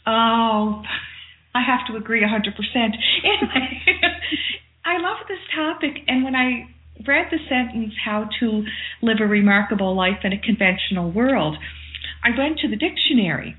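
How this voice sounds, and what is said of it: Nova Scotia lilt. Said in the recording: “the lovely dulcet tones of your Nova Scotia voice ... my authentic, natural lilt ... Your remarkable lilt.”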